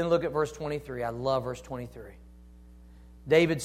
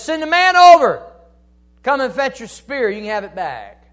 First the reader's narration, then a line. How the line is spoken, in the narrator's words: David hollers out and says